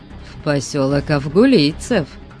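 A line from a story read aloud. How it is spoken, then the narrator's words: Calm reply. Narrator (Russian): спокойно ответил похититель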